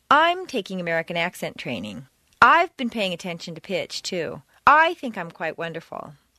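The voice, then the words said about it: Heavy stress on every "I". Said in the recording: “If you stress I every time, it will seem that you have a very high opinion of yourself.”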